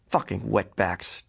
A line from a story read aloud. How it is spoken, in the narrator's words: Jack growled